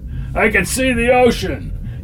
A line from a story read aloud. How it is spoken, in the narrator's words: yelled Kellogg up back